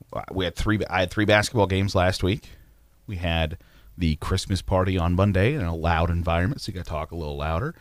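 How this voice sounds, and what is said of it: Slightly hoarse, worn voice. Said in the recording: “I'm losing my voice just a little bit ... So losing the voice a little bit”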